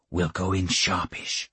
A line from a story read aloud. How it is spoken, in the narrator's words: he whispered